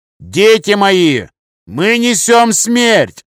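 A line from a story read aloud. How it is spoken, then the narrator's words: Shouting. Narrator (Russian): крикнул Томас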